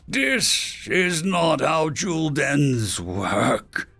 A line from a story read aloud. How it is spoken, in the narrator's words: the creature snarled